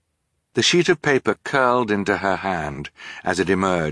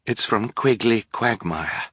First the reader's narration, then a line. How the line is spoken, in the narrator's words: she said quietly